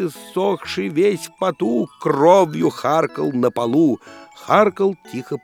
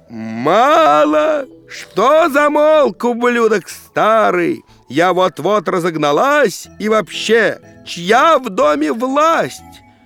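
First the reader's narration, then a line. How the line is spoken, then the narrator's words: Old woman yelling. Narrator (Russian): Бабка ж заорала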